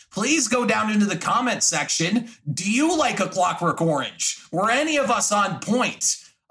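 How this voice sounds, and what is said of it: Shouting, loud delivery. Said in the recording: “Why am I shouting?”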